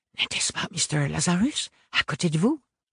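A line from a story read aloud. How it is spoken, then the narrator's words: Whispered. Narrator (French): lui chuchota Blasius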